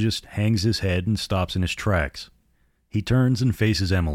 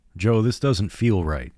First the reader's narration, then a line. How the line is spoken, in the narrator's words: Emily says